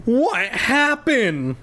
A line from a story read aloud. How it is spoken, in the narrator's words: Lefty cried